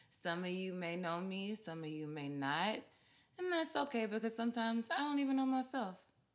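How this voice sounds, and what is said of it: Mississippi Southern accent. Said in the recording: “I'm from Vicksburg, Mississippi, as you can probably tell by my accent.”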